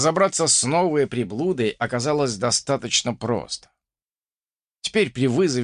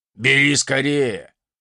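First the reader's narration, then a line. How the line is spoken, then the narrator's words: Snorted. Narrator (Russian): фыркнул ультиматор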